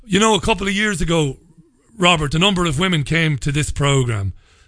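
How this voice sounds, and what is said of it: Irish accent. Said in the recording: “I'm an Irishman. There's no hiding it from my accent.”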